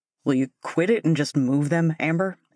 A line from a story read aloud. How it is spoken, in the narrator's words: growled finally